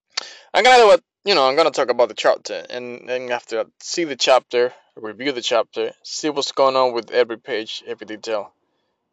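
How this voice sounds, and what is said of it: Non-native foreign accent. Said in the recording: “Probably you guys won't understand what I say because of my accent. Yes, I'm from a far away land”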